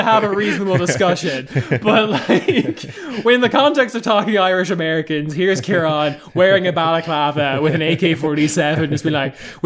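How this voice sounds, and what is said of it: Irish accent. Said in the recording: “why I talk funny compared to the rest of the co-hosts, it is because I am Irish ... He won't stop doing this accent”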